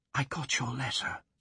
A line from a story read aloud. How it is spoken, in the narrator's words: she whispered